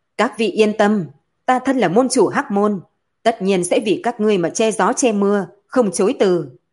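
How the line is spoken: Loud. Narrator (Vietnamese): Hắn lớn tiếng nói

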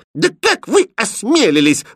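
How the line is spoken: Angry princess. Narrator (Russian): злобно топнула ножкой принцесса

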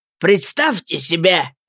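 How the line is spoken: Shouting. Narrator (Russian): закричал он

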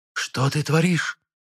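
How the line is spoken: Hissing. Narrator (Russian): зашипела Лаайда

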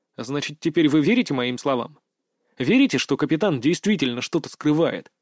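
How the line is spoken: Plain question. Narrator (Russian): спросил я

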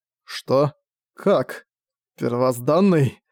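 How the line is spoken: Hoarse, questioning. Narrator (Russian): хрипло уточнил он

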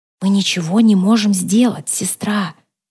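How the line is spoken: Whisper. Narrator (Russian): прошептала

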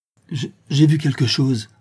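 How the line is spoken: Stammered. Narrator (French): bégaya Gertrude

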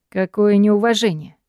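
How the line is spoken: Icy, menacing tone. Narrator (Russian): отвечает Гай своим фирменным, ледяным и угрожающим тоном

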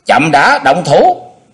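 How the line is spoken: Loud call. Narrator (Vietnamese): Xung đại sư cao giọng kêu lên

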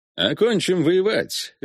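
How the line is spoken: Cheerful strategist concluding. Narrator (Russian): весело заключил стратег

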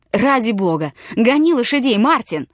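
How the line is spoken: Sudden shout. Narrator (Russian): крикнул вдруг

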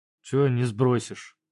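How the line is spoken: Gloomy question. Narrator (Russian): мрачно спросил

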